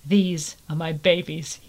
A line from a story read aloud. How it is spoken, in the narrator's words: he said softly